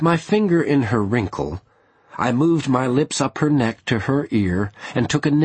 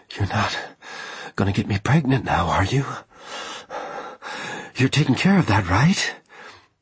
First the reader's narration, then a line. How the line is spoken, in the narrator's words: Reiko murmured in my ear